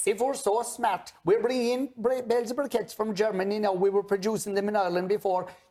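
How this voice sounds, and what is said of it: Thick Irish accent. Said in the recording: “the Irish accent is really thick”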